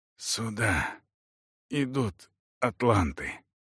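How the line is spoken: Forced, strained words. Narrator (Russian): выдавил он наконец

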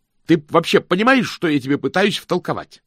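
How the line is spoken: Shouted. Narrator (Russian): закричал мокрец

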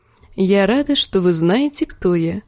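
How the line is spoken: Soft, gentle. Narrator (Russian): мягко заметила Дэнни

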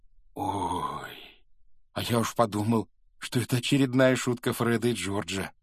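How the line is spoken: Breathy exhale. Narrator (Russian): выдохнул Рон

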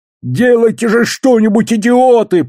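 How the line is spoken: Shouting between yelps. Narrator (Russian): прокричал он между 2 тявканьями

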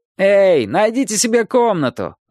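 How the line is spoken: Shout. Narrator (Russian): выкрикнул кто-то

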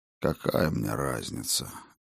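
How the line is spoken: Ancient god's gloomy answer. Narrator (Russian): уныло ответил древний бог

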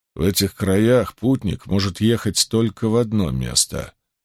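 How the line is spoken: Utterly indifferent leader. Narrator (Russian): произнес главарь совершенно равнодушным голосом

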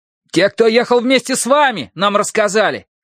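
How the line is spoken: Shout. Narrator (Russian): крикнул лучник

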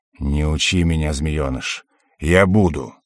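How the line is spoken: Demon's growl. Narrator (Russian): рыкнул демон

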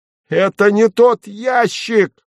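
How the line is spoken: Full-voiced yell. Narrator (Russian): завопил я в полный голос

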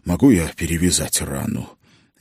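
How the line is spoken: Forced strained words. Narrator (Russian): выдавил из себя

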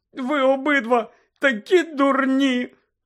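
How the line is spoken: Tearful shout. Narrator (Ukrainian): крикнула Герміона, заливаючись слізьми

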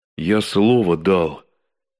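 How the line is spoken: Unhappy voice. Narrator (Russian): повторил Никитин несчастным голосом

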